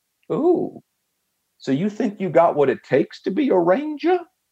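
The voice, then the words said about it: Grating Southern drawl accent. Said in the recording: “that Southern brawl accent that is just a little bit too uh, grating”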